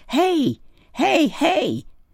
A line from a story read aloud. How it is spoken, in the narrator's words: yelled